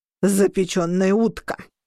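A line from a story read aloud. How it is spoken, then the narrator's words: Snorted. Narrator (Russian): фыркнул Орро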